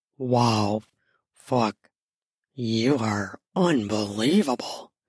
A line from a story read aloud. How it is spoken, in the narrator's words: he seethed through clenched teeth